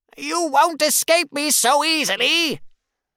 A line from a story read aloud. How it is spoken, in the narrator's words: the witch yells